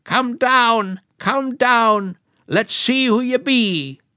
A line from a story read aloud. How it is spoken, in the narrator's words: old Ketchery called out louder